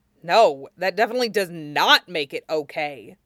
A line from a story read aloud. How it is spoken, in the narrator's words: Zuko snarled